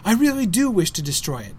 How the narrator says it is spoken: cried Frodo

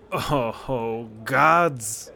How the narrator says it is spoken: groaned the Jarl of Whiterun

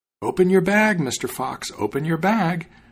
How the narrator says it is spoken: the cat called out to him

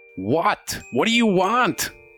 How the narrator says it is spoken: a female voice, and you hear somebody yell

